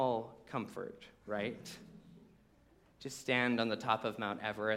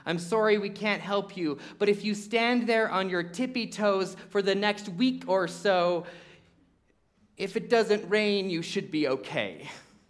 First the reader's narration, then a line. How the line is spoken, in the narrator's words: Noah shouted to his friend